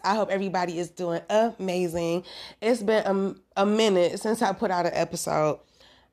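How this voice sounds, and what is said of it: Slightly raspy voice. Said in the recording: “my voice is a little raspy,”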